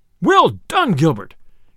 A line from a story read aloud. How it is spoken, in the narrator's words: cried the sheriff, right joyously